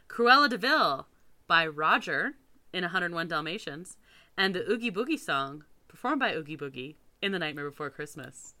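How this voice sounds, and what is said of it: Put-on announcer voice. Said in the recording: “That was my announcer voice.”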